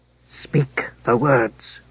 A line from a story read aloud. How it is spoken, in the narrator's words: the gear hissed